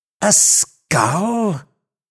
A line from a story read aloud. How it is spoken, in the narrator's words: exclaimed Legrand